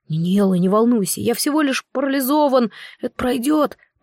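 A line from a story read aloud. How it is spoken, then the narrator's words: Hoarse wheeze. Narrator (Russian): прохрипел Горан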